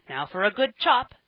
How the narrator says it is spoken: he cried

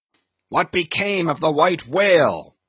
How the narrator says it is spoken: now cried Ahab, who thus far had been impatiently listening

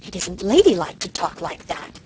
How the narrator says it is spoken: said Cousin Sophia in a shocked tone

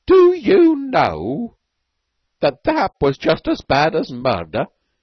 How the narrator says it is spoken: he said in a grating voice

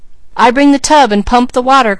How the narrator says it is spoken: cried Mary

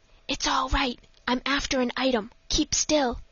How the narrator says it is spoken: whispered

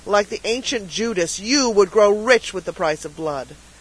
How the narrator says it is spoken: cried Harvey bitterly

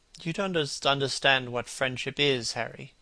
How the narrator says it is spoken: he murmured

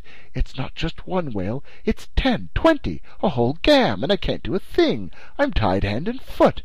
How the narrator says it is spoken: he exclaimed

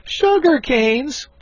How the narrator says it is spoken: cried they all

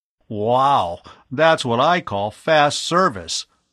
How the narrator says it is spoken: Bud exclaimed

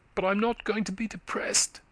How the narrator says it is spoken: she cried perversely

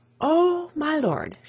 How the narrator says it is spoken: exclaimed

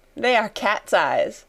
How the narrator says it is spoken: laughed Sarah

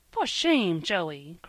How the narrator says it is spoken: cried Polly, feeling her face grow dreadfully red

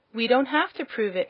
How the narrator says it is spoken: answered Dorothy indignantly

